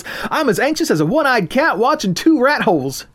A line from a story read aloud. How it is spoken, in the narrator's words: Crystal exclaimed